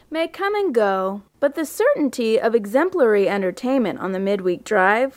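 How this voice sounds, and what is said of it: Affected put-on accent. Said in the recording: “affecting an accent”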